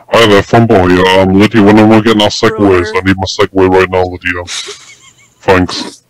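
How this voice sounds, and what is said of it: Voice altered by voice changer. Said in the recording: “using a voice changer”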